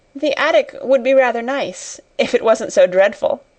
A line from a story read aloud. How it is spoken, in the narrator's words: said, laughing again